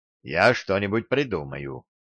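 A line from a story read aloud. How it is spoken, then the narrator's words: Muttered. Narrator (Russian): пробормотал я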